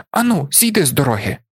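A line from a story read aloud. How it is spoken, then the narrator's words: Exclaiming. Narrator (Ukrainian): вигукнув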